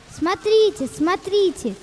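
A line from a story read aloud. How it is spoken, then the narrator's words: Crowd shouting. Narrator (Russian): кричали в третьей деревне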